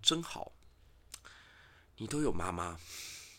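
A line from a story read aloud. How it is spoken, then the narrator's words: Sighing. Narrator (Chinese): 郑庄公就长叹一口气，跟他说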